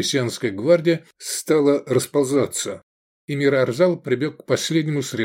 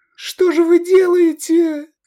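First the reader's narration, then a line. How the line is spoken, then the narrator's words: Girl screaming. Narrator (Russian): закричала девушка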